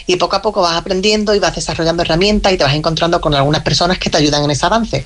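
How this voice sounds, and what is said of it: Andalusian Spanish accent. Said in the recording (Spanish): “acento de Cádiz y al sur de Granada ... El acento, dice. Es verdad que tienen el puntito”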